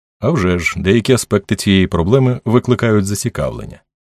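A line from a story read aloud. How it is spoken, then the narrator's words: Indifferent detached voice. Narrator (Ukrainian): відповів Харлан байдужим безстороннім голосом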